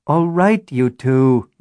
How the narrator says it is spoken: Natasha groaned

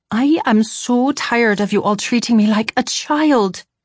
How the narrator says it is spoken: I exclaimed

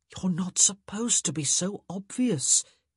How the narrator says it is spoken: he said in a stage whisper, purposely loud enough for Simon to hear

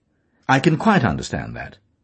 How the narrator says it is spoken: he said calmly

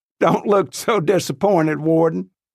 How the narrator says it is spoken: starts laughing, and says

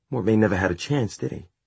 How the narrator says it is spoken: She said quietly

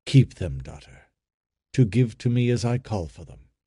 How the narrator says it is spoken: the father said in the tender voice he always used in speaking to her

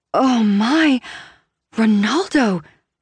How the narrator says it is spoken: I gasp

